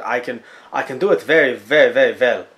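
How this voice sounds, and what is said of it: Put-on French accent, not very good. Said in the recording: “the French accent? ... if you think my French accent is bad”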